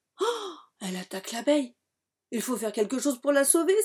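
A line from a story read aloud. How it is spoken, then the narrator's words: Exclaiming. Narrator (French): s'écrie Lila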